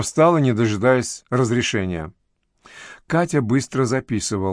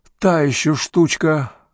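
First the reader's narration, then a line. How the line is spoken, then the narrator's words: Noisy exhale. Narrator (Russian): оперативник шумно выдохнул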